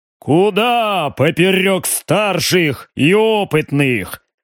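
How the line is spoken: Deep bass, baron. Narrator (Russian): пробасил барон

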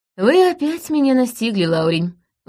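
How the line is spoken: Sigh. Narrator (Russian): вздохнула я

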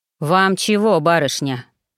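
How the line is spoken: Gloomy deep bass. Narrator (Russian): пробасил он угрюмо

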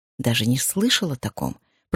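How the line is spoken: Whispered. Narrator (Russian): прошептал Майк

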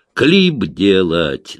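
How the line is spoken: Barking again. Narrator (Russian): снова рявкнул Сеня

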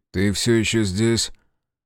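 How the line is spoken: Tired grumble. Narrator (Russian): проворчал Грей, устало

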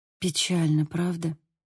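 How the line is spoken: Whispered. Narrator (Russian): прошептала я

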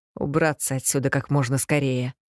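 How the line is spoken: Mutter. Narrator (Russian): пробормотал Престон

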